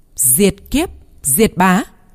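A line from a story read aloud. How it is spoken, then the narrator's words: Loud voice. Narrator (Vietnamese): nó lớn tiếng nói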